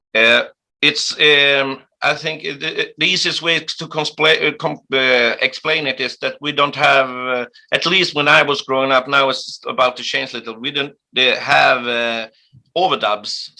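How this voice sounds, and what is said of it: Swedish accent speaking English. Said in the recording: “When you speak English, when you are speaking with me, I can sense that there is a Swedish accent”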